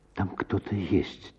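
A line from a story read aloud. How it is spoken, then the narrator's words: Quiet speech. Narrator (Russian): тихо проговорила Надежда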